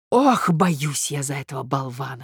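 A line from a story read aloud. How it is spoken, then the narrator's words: Whispering to herself. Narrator (Russian): шептала про себя Марья Александровна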